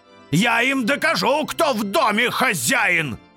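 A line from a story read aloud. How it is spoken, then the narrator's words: Yelling. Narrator (Russian): ежедневно орал Форте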